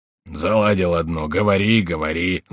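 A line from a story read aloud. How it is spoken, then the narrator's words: Grumbling. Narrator (Russian): заворчал Шико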